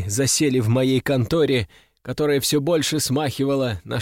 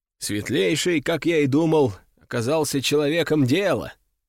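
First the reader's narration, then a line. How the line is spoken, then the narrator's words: Snorting. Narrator (Russian): хмыкнул Брюс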